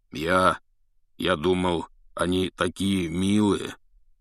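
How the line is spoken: Uncertain. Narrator (Russian): неуверенно сказал Хагрид

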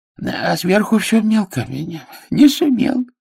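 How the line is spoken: Joyful toothless mumble. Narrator (Russian): радостно шамкал Бах

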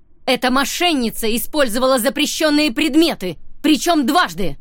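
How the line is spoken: Shouting. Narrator (Russian): прокричала Эмбер

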